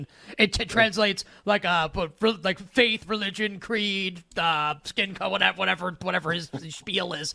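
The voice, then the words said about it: Donald Trump impression. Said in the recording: “I feel like I want to do like my Trump ... Impersonation.”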